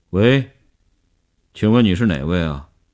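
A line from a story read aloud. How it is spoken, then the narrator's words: Tense, trembling voice. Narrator (Chinese): 林星呼吸紧张，几乎不能控制声音的痉挛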